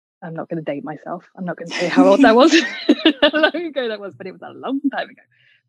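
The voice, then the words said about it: Lowered voice, generic English accent. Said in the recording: “lowered my voice and I have adjusted my accent ... I chose this accent because I knew it would open more doors for me than the regional Cockney accent ... a generic English accent”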